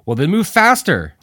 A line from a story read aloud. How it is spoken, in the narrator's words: Al shouted